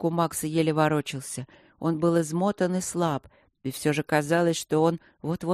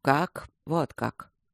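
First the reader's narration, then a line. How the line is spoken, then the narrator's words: Quiet. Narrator (Russian): тихо сказал Михей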